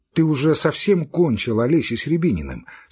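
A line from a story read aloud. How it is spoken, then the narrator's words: Plain. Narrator (Russian): спросил Левин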